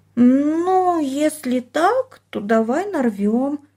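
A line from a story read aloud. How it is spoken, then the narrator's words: Uncertain drawl. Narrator (Russian): неуверенно протянула она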